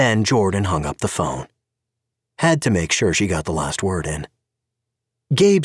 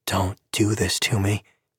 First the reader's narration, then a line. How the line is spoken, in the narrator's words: he murmured